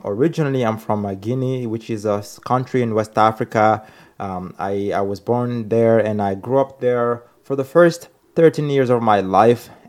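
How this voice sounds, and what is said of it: Non-native English accent. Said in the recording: “You may tell from the accent or you may not.”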